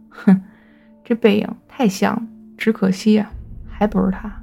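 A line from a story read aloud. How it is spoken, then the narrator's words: Sneering mutter. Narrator (Chinese): 前排的司机啊，边冷笑边嘟囔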